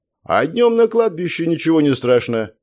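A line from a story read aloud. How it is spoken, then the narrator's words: Cheerful reply. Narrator (Russian): весело ответил я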